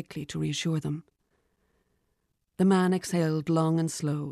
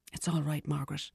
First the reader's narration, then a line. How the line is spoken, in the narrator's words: whispered